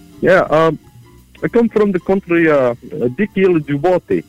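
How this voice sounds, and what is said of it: Put-on foreign accent. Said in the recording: “It sounds like your different voice. Your accent has really changed.”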